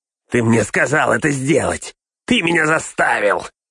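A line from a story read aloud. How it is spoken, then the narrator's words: Hissed. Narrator (Russian): прошипел он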